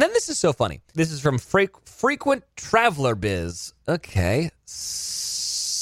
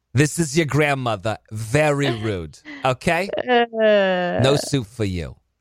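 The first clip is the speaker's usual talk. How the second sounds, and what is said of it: Put-on old grandma voice. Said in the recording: “That's maybe the grandma voice is a tad ugly ... Did you just call my grandmother's voice?”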